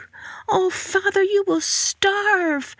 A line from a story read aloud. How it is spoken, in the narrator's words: Marigold cried